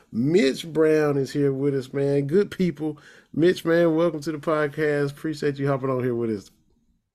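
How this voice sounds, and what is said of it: Polished radio announcer voice. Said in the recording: “that's a good radio voice you got there”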